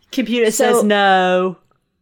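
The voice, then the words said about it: Bad impression of a TV character. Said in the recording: “It's a bad impression”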